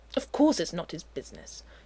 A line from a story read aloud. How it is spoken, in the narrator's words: Uther snaps